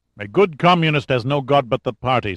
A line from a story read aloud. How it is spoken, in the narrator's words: said Suvorov, roughly